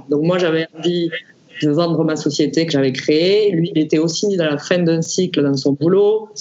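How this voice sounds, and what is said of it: Southern French accent. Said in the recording (French): “mon accent montre que je ne, suis pas née à Paris et que ... donc le Sud m'appelait”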